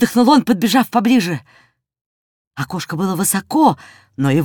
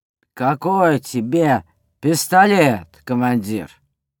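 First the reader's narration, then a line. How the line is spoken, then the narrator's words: Lazy question from moustached man. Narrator (Russian): усатый продавец лениво спросил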